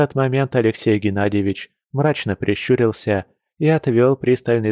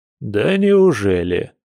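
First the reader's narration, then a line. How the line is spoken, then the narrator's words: Hostile scoff. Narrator (Russian): с откровенной неприязнью хмыкнул владелец мастерской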